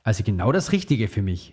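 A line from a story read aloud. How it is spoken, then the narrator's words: Father laughing. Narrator (German): lachte Papa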